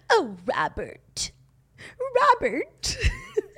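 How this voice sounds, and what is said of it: Imitates a TV character's voice. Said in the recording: “does the best Cora Grantham impersonation.”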